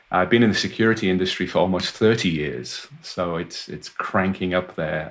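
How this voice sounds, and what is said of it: Welsh accent. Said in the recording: “my accent probably gives some of it away. I was born and raised in Wales in the United Kingdom”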